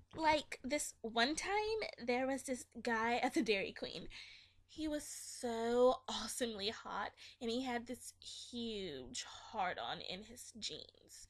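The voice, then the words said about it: Put-on Valley girl accent. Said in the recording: “reading that in my best Valley girl accent”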